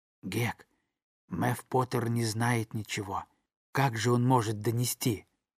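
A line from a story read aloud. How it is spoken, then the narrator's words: Whisper. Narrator (Russian): Он прошептал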